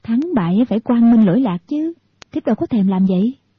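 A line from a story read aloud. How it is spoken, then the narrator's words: Smiling. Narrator (Vietnamese): Thiếu phụ mỉm cười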